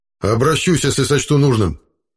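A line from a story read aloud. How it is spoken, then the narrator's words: Rather sharp reply. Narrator (Russian): довольно резко ответил Хайрат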